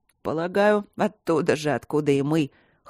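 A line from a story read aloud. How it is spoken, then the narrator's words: Hoarse, smiling. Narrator (Russian): хрипло сказал он, улыбаясь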